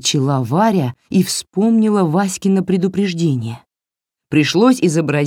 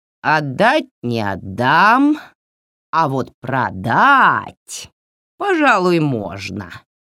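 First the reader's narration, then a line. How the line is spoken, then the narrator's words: Drawling. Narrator (Russian): протянула Баба-Яга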